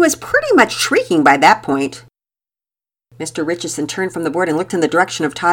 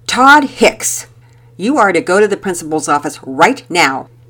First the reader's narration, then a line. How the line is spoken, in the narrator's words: sternly ordered